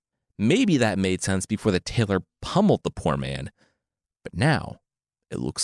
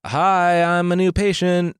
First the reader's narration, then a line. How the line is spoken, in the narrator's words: the tailor yelled up through the door